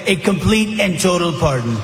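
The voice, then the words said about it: Imitates another person's voice. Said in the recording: “really, really good impression of President Trump”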